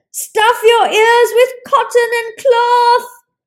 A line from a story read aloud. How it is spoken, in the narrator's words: yelled Ishak